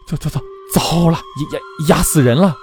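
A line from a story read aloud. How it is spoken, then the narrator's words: Frightened stammering. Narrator (Chinese): 马黄元突然脸色苍白地…结结巴巴地说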